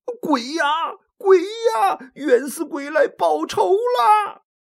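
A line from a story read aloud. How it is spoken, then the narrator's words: Terrified shouting. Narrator (Chinese): 顿时吓得是魂飞魄散呐，嘴里嚷着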